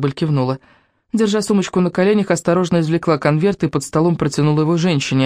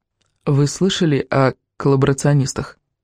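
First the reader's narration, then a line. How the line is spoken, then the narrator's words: Whispered right into ear. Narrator (Russian): Шепнула прямо в ухо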